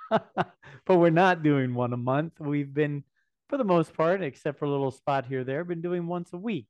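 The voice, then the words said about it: Strained voice, losing it. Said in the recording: “as I lose my voice.”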